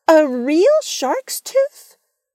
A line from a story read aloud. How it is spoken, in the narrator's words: Vienna exclaimed